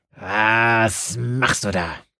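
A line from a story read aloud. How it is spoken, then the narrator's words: Growling woman. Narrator (German): knurrte sie dem Pfarrer an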